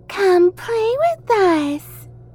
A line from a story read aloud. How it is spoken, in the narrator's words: Matilda said in a high, childlike voice